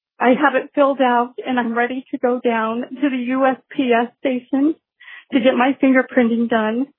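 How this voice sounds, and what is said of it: Emotional, choked-up voice. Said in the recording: “I'm sorry, I'm getting emotional.”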